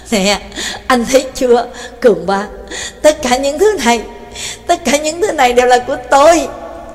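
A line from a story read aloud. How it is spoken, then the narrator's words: Laughing loudly. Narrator (Vietnamese): Mekin cười lớn nói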